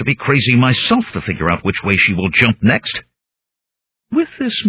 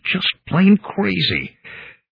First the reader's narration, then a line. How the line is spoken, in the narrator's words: I mumbled